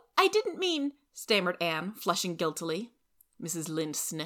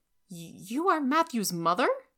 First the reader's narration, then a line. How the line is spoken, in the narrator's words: she exclaimed